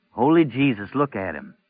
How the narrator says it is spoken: Baker said

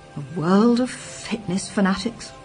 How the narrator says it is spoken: he muttered bleakly

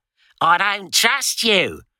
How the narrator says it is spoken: she kept bellowing

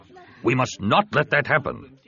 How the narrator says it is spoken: Ta said firmly

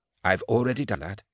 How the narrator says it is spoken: she said softly

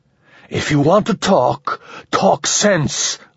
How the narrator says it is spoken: Ramon rasped

